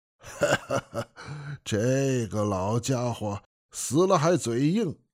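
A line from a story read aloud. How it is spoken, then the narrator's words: Laughing. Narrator (Chinese): 活佛笑了说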